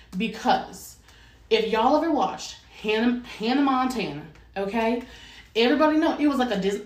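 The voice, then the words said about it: Put-on Southern American accent. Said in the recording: “I don't know why I'm doing a Southern accent.”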